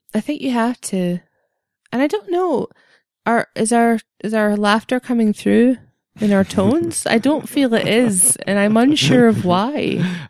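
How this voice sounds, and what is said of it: Deadpan, dry delivery. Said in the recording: “You're more deadpan ... I'm naturally more deadpan ... you have a dry wit”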